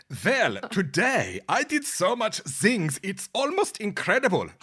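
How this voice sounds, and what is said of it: Put-on German accent. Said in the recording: “Like my German accent? ... No, we don't like your German accent.”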